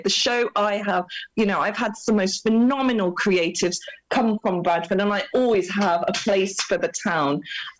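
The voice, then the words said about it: Excited, animated voice. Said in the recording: “I'm super excited. You can hear it in my voice.”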